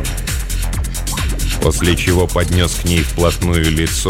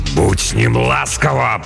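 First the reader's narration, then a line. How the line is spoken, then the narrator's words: Growled. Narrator (Russian): прорычал монгол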